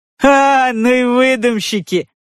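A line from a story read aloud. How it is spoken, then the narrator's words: Loud laughter. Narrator (Russian): захохотал парикмахер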